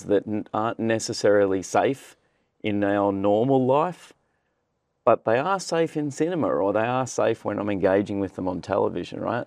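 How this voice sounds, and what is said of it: Australian accent. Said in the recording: “You are Australian. ... I am, indeed. So the accent probably slightly gives that away.”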